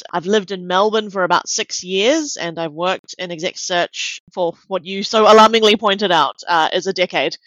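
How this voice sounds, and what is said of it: New Zealand English accent. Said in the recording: “keen listeners may be able to tell from my accent that I am not Australian by heritage. I grew up in New Zealand.”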